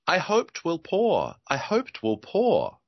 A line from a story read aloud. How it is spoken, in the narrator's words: purred the tree toad